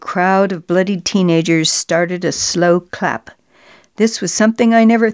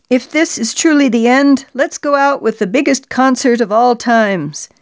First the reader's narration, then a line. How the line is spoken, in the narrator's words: Our lead singer hollered out over the crowd